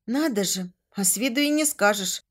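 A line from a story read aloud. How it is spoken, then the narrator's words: Quiet comment. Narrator (Russian): негромко прокомментировала я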